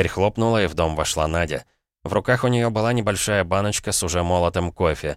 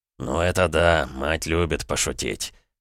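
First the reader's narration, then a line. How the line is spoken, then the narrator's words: Chuckling. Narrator (Russian): хохотнул Николай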